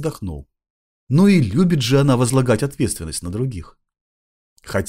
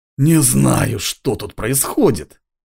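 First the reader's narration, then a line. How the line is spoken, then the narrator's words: Creaky voice. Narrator (Russian): проскрипел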